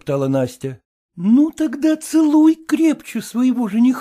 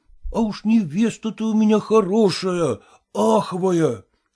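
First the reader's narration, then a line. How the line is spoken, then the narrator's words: Whispering. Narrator (Russian): шептал он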